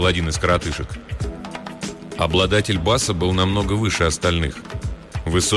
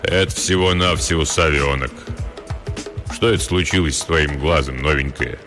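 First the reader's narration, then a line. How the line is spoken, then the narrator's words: Deep booming voice. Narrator (Russian): Пробасил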